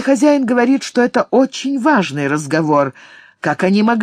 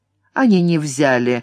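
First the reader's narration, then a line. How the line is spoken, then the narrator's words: Grim. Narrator (Russian): мрачно сказал Блэксорн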